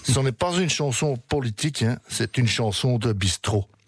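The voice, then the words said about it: Attempted Belgian accent. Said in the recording (French): “je vais essayer de le faire avec l'accent, vous le faites beaucoup mieux que moi”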